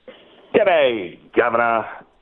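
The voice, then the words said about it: Put-on Australian accent. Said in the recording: “Your Aussie accent.”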